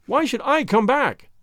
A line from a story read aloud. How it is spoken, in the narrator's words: I cried